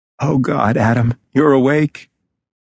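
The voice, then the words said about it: Hoarse whispering male voice. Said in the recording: “whispers a man's hoarse voice”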